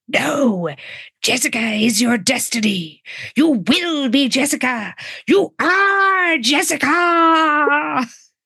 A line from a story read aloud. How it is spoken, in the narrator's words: A raspy voice inside her head whispers